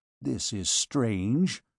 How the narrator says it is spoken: murmured Claude

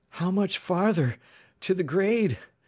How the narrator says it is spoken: panted

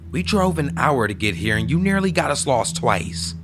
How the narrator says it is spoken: she said angrily

